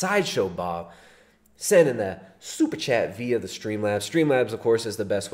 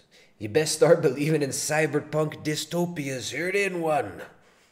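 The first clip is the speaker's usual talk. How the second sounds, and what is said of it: Pirate voice. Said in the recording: “pirate voice ... do a pirate voice? ... You like that pirate voice?”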